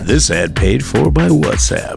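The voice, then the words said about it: Announcer-style radio voice. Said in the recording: “That's my radio voice.”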